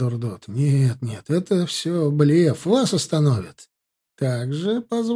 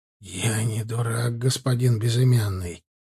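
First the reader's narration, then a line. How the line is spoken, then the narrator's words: Whisper, mage. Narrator (Russian): вновь прошептал маг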